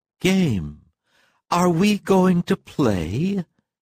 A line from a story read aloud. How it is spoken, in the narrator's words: she asked tenderly